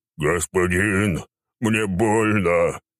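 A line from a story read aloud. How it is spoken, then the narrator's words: Monstrous growl. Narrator (Russian): прорычал рогатый минотавр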